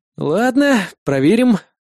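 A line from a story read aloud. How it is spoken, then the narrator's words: Sighing reply. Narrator (Russian): вздохнув, ответил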